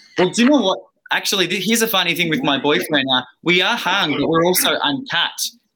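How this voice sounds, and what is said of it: Australian accent. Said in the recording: “Are you English? Because I hear an accent. ... Australian, it sounds like.”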